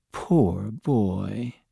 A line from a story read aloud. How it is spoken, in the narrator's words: she murmured